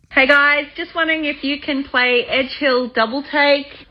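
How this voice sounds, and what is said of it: Australian accent. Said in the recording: “if the accent didn't give it away already ... all the way from Australia”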